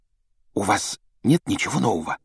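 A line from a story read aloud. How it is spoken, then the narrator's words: Whispered. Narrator (Russian): добавила она шепотом, чтобы не услышала мадам Помфри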